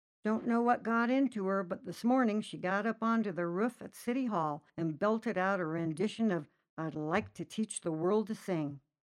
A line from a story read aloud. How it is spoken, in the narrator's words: let out with a sigh